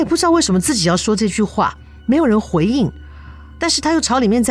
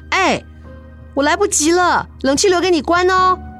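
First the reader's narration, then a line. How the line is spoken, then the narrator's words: Hurried distant shout. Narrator (Chinese): 急着出门的自己就对着这个房子的深处大喊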